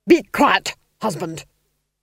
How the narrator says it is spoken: snapped the Duchess

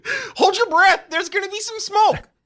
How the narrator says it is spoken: You shout

